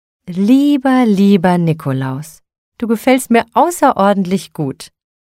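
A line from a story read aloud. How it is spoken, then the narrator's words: Delighted cry. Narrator (German): rief sie entzückt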